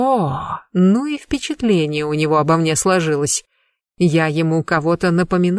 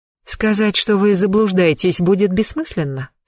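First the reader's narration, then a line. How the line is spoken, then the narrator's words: Calm question. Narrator (Russian): спокойно спросила я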